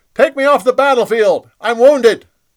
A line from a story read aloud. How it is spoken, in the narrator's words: He yelled